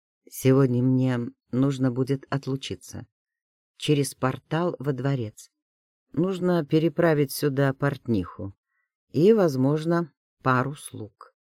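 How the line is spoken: Calm, matter-of-fact. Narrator (Russian): Дерек сказал спокойно, как о чем-то само собой разумеющемся

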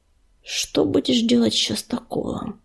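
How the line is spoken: Low growl. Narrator (Russian): тихо прорычала песчаная буря

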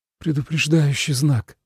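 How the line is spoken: Breathy exhale. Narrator (Russian): выдохнул Тоби

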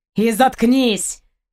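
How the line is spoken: Angry cutting off. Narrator (Russian): зло оборвал капитан

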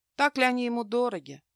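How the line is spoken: Sad snort. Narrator (Russian): грустно хмыкнула она

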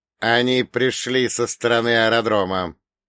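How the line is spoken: Through gritted teeth. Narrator (Russian): сквозь зубы процедил Берия

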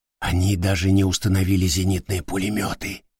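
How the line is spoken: Whisper. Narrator (Russian): прошептал Панар

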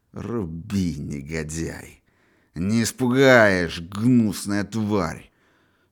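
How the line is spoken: Contemptuous hiss through teeth. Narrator (Russian): С уничтожающей брезгливостью, с пламенеющими глазами сквозь зубы прошипел

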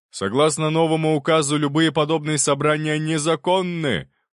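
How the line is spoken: Policeman shouting through megaphone. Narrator (Russian): прокричал один из полицейских через рупор

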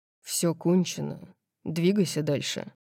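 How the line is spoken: Cold. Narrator (Russian): холодно сказал он

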